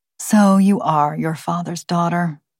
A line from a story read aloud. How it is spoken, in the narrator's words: said Jane, perhaps a bit sadly